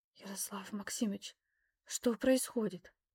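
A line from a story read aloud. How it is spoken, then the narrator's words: Mother whispering. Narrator (Russian): Мама до сих пор могла разговаривать лишь шепотом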